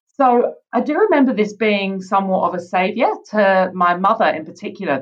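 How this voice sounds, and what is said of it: British accent. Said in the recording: “I grew up in the UK, as you can probably tell from my accent.”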